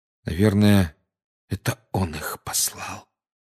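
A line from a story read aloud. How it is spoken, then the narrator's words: Quiet. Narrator (Russian): тихо сказал Гарри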